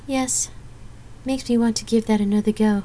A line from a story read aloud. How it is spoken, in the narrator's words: Gabrielle chuckled wearily